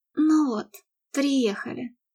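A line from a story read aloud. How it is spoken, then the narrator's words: Sigh. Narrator (Russian): вздохнула Мередит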